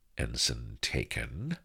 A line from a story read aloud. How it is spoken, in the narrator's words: murmured firmly